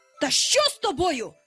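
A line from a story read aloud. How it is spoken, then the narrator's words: Frightened shout. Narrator (Ukrainian): закричав Пітер уже перелякано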